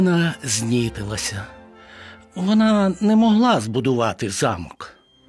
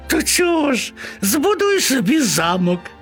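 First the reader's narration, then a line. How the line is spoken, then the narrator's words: Laughing mice chorus. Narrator (Ukrainian): засміялися миші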